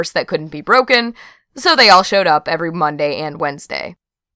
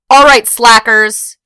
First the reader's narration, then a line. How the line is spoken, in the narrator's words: she yelled